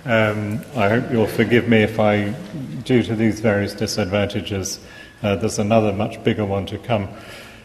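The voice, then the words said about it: English accent. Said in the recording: “as you hear from my accent, English”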